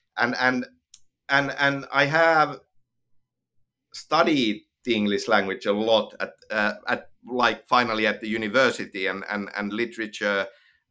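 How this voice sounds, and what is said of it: Finnish accent in English. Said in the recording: “English is not my native language. ... Finnish is my native language, as you can hear from my accent.”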